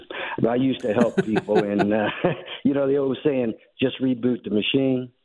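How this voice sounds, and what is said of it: Speaks with a noticeable accent. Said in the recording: “Love your accent”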